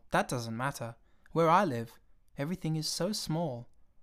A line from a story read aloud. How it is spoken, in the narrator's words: the little prince said earnestly